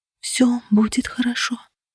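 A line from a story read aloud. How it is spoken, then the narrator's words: Whispered assurance, heavy sighs. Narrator (Russian): шепотом утверждала я, тяжело вздыхая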